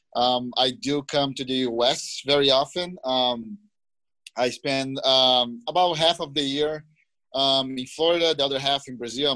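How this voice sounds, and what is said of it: Brazilian-accented English. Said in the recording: “I'm sure you guys can tell from my accent that I'm a foreigner. I was born and raised in Brazil.”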